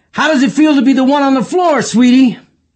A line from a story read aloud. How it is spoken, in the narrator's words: yelled